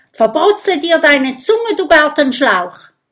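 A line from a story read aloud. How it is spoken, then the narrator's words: Calling out. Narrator (German): ruft Kokosnuss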